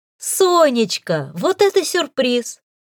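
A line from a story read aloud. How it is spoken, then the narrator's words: Joyful exclamation. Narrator (Russian): С неподдельной радостью воскликнула я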